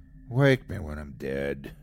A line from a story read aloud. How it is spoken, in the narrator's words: he groaned